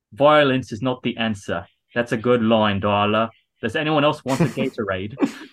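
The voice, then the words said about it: Helen Mirren impression, straightforward British accent. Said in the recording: “Helen Mirren is like reading the letter ... she's all in the most straightforward British accent”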